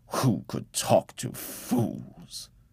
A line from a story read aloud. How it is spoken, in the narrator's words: He grumbled, but there was a pleased look in his eye